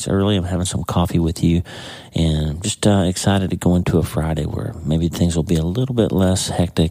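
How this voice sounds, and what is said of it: Tired voice, cracking and clicking. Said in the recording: “my voice is, I guess, just tired, but I'm having a lot of trouble with my voice kind of cracking and clicking”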